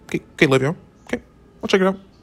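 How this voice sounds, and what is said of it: Imitated coach voice. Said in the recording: “in his little coach voice,”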